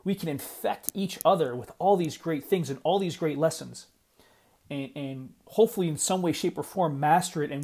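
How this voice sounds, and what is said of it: Excited, passionate voice. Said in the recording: “I'm getting really excited, and I'm getting really passionate, and you can probably hear it in my voice”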